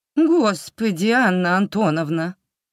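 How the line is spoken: Mournful objection. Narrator (Russian): скорбным голосом возразила гостья

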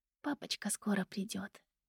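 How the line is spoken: Soothing whisper. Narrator (Russian): прошептала я, укачивая малыша

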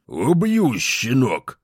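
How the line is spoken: Through clenched teeth. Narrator (Russian): процедил вахмистр сквозь зубы

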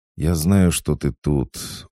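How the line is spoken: Weary sigh. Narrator (Russian): устало выдохнул Хаджар

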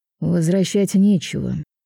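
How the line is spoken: With a snort. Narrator (Russian): хмыкнув, Райгард

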